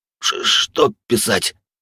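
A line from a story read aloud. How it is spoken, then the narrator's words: Cracked voice, asking again. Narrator (Russian): над треснувшим голосом переспросил Вольд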